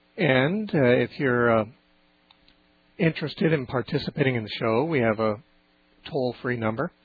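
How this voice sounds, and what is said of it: Hoarse, cracking voice near laryngitis. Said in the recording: “excuse my voice. For some reason, I'm on the edge of laryngitis ... my voice is ... not a very good radio voice because it's always cracking and on the edge from too much use”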